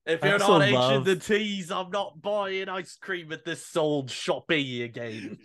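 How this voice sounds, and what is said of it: Put-on Cockney English accent. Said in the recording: “you guys just assume that everybody in England speaks with a Cockney accent”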